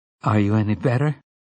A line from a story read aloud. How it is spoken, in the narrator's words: she asked him uneasily